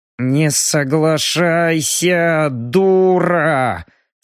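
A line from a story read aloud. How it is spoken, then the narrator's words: Hissed through teeth. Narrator (Russian): Сквозь зубы прошипел Робин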